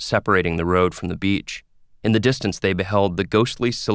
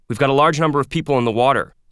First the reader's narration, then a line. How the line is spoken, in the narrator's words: Soma shouted into the radio